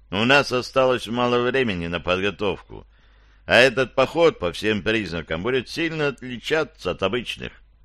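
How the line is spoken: Calmer remark. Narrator (Russian): подметил Барклай уже более спокойно

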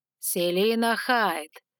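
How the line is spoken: Purred by dragon. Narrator (Russian): промурлыкал огненный дракон

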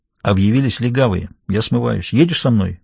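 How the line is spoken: Quick question. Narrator (Russian): быстро спросил Даффи

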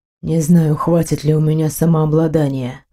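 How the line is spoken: Hoarse. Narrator (Russian): хрипло проговорил он

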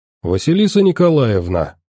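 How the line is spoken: Cheerful smirking address. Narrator (Russian): обратился к девушке сталкер и весело усмехнулся

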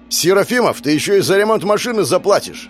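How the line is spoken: Angry shouting. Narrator (Russian): орал Кислов

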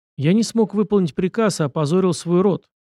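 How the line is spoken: Muffled, flat declaration. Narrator (Russian): глухо заявил Асана

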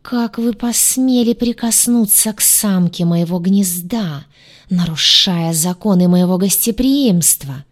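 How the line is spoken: Angry hiss. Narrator (Russian): прошипел царствующий, пылая от гнева

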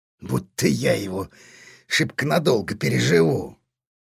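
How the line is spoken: Indifferent grunt. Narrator (Russian): все так же равнодушно буркнул тот

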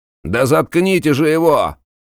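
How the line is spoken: Young man shouting. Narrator (Russian): Закричал костлявый длинноногий парень

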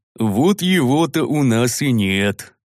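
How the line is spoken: Muffled grumble, big man. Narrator (Russian): глухо проворчал здоровяк

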